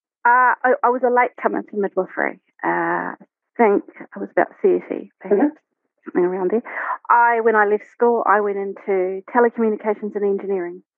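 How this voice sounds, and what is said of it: Strong New Zealand accent. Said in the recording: “you're a natural Kiwi too, by the accent ... we have a special Southland accent, but I think I've lost it over the years. I don't roll my R's quite as much as I used to ... I have a very Kiwi accent”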